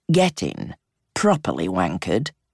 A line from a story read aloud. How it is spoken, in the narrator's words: he said in an academic sort of tone